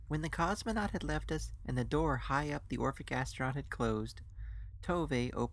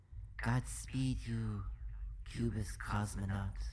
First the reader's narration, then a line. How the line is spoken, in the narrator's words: Tove whispering kindly